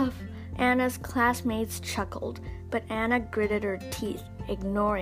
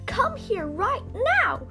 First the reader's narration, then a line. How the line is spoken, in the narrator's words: she screamed